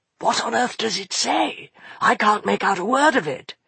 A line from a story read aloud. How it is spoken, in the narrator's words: whispered Fenolio